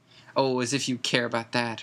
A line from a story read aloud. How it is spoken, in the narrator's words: Hermione scoffed